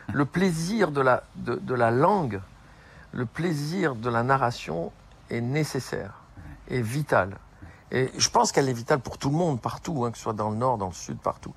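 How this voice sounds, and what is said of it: Slight southern French accent. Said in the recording (French): “moi, j'ai un accent, enfin un peu, peut-être un peu moins maintenant avec le temps ... accent du sud”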